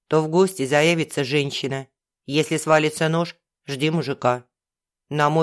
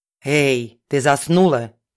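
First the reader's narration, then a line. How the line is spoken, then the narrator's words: Hissing. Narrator (Russian): зашипела хозяйка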